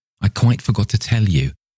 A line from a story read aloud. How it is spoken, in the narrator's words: he panted over his shoulder to Thornton